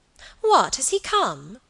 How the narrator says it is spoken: cried Alicia

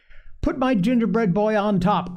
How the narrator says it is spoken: cried Phronsie

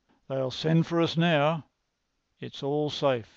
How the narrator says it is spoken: he cried

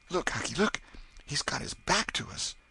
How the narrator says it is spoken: Tom choked off and whispered

